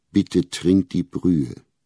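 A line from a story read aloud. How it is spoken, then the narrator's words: Gentle. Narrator (German): sagte sanft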